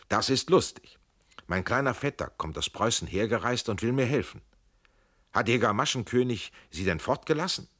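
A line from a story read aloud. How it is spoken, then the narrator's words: Calling out. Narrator (German): Er rief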